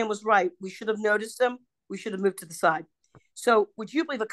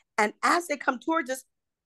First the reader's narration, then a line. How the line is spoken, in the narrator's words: I called out to my friends